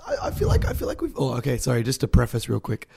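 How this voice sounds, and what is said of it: Hoarse, husky failing voice. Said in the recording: “My voice is going ... I'm going for like the sexy husky voice thing.”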